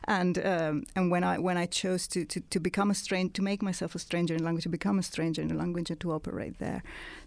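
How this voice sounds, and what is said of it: Italian-accented English. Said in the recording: “when I stopped writing in Italian, as you might have guessed from my accent, I'm not British”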